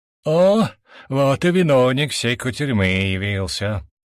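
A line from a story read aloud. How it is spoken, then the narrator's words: Gloomy declaration. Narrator (Russian): мрачно заявил Радбор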